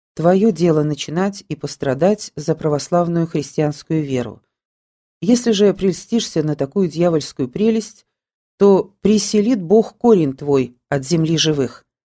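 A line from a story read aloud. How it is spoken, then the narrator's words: Quiet. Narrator (Russian): Мстиславскому сказал тихо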